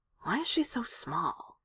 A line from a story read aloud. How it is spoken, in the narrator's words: Eric mutters to himself